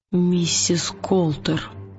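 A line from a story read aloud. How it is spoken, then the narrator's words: Whispering. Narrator (Russian): прошептал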